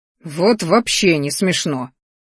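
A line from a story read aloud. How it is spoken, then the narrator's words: Growled furiously. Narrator (Russian): рыкнул его высочество, метая глазами молнии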